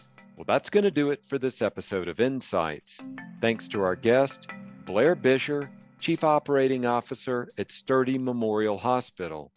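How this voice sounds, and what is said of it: Polished radio-style voice. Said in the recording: “you've got an amazing radio voice”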